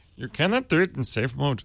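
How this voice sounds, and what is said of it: Deliberately bad put-on accent. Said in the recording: “I bet he sounded more like... I'm really bad at accents, but I love doing them.”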